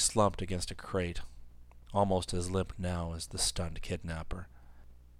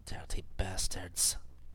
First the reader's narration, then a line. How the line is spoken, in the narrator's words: she muttered